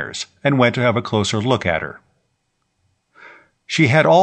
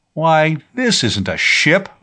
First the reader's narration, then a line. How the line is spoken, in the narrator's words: Vibart cried in disgust